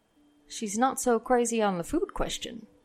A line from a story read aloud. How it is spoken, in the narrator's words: some murmurs of